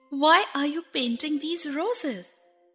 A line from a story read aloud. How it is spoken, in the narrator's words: said Alice a little timidly